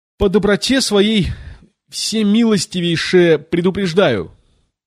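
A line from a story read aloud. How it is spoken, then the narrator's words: Queen shouting. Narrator (Russian): крикнула королева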